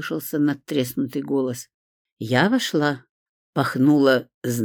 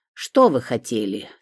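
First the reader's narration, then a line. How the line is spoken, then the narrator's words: Grumpy, impatient question. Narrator (Russian): сварливым голосом спросил он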